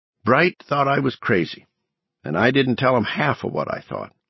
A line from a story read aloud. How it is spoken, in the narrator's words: Ev said